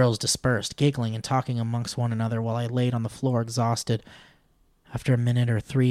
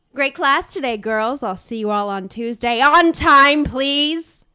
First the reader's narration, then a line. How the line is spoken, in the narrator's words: shouted